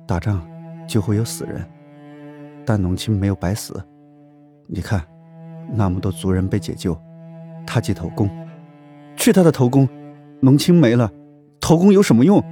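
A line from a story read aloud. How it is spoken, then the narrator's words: Choked with sobs. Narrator (Chinese): 龙腾哽咽着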